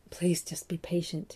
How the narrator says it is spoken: he whispered

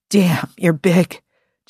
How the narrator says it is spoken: Jim panted

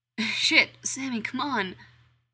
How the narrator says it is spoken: Dean pleads

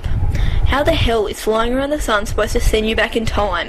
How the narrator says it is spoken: McCoy scoffs

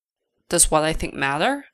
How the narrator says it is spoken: Polly asks

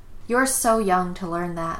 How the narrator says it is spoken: Topanga sighed

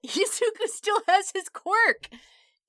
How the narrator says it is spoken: Kaminari laughed

